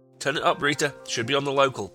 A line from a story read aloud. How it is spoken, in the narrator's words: said her brother